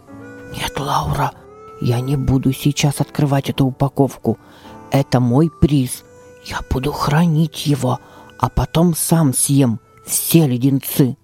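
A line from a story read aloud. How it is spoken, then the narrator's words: Whispered. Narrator (Russian): добавил шепотом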